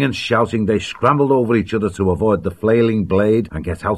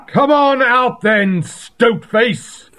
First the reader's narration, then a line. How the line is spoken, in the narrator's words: Feldo's deep voice boomed back from the shore